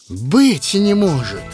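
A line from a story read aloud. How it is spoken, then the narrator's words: Loud joyful innkeeper exclamation. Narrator (Russian): воскликнул тот трактирщик громко и радостно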